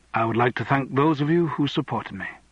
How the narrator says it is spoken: Andrew said quietly

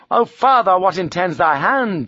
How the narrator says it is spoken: she cried

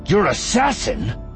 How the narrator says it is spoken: Voss snapped

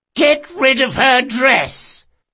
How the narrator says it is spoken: he shouted

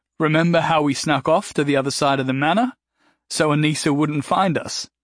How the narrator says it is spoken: Gary laughed, reminiscent mirth weighed down with sadness

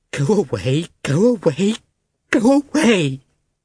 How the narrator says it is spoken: she cried, as if in physical pain

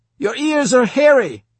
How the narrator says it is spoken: I would shout

